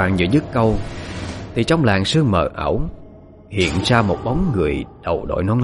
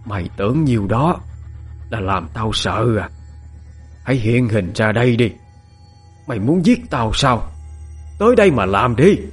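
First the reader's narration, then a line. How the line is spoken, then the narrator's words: Fierce, harsh woman. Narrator (Vietnamese): mụ gằn giọng hung tợn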